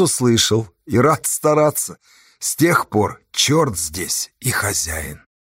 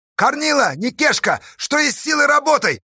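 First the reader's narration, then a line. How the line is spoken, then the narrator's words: Shouting through a trumpet. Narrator (Russian): закричал Асташа в трубу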